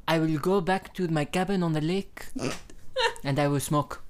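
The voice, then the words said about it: Put-on French Canadian accent. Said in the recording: “my French Canadian impression”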